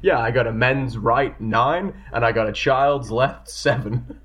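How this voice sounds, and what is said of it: Half-hearted character voice. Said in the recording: “Sorry, I can't do that accent like Gary can. I'm not even attempting”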